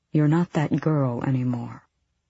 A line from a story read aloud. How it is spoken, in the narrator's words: he said softly